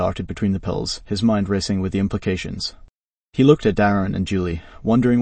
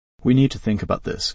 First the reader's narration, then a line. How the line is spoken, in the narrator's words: Carl said finally, his voice firm